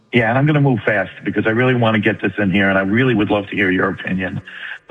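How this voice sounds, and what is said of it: New York accent. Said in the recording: “You don't sound like you're from Texas, dude. Sound like you're from New York.”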